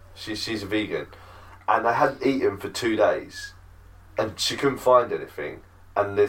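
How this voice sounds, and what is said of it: Usual voice. Nothing is said of it.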